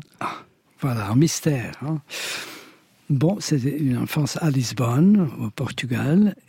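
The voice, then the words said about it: Light Portuguese accent in French. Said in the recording (French): “votre léger accent magnifique portugais”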